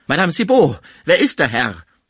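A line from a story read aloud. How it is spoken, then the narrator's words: Shuddering exclamation. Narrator (German): rief er, beim Anblick des regungslosen Frisier von einem Schauer ergriffen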